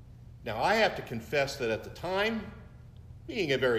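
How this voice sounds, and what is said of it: Usual voice. Nothing is said of it.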